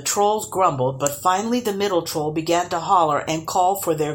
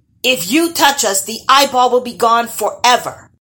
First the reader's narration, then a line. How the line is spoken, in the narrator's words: yelled